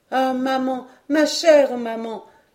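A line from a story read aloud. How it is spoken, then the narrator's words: Heartfelt cry. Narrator (French): s'écria-t-il sans pouvoir retenir ce cri parti du plus profond de son cœur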